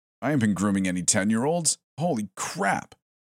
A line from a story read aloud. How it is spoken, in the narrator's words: exclaimed defensively